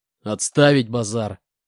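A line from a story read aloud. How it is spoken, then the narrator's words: Growled. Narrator (Russian): рыкнул Буран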